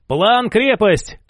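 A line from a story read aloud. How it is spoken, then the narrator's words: Shout. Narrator (Russian): крикнул он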